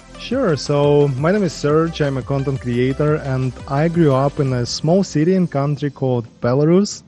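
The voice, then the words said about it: Foreign accent, non-native English speaker. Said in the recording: “you with your accent. I am going to assume that you weren't born in the United States.”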